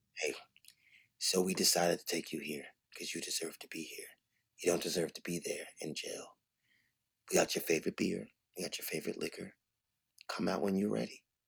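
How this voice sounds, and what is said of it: Very soft, deep voice. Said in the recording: “Very soft, deep voice.”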